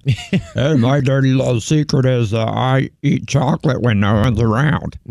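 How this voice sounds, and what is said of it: Weird Cookie Monster-like voice. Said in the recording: “in a weird voice. ... Sound like the Cookie Monster.”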